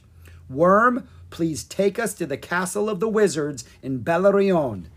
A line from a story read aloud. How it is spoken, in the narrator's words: Drake cried